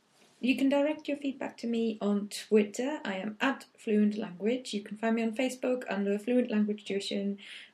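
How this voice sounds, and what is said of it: Speaks with a noticeable accent. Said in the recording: “what's your stupid accent? Where's that from? ... I'll tell you all about my accent”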